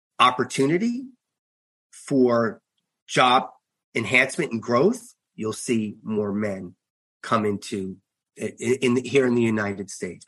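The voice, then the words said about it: Long Island New York accent. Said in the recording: “you still have that beautiful Long Island, New York accent”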